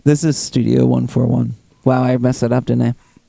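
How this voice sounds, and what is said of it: Low, seductive bedroom voice. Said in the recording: “bedroom voice”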